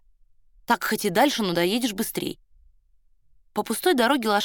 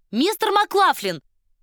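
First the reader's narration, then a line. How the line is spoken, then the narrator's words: Ringing shout. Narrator (Russian): звонко крикнула она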